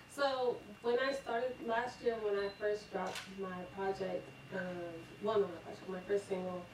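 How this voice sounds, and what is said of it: Slight regional accent. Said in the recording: “you got a little bit of accent”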